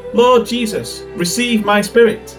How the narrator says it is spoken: He had just called out

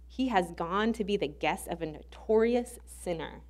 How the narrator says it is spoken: they grumbled

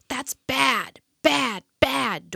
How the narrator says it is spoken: Dorothy shouted

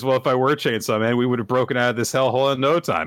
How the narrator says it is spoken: starts laughing and he says

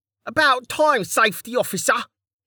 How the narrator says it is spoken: Kettle shouted

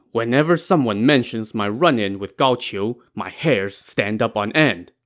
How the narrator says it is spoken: Lin Chong said angrily

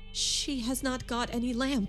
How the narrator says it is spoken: said Rebecca in a shaking voice

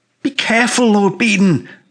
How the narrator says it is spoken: I cried

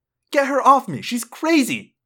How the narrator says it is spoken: Jessica cried

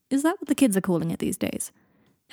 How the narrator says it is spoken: Harry laughed

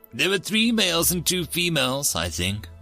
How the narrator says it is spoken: said

